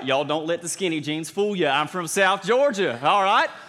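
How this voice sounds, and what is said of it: Southern American accent. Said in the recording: “this is not the voice that you expected to come out of this, right? Southern accent.”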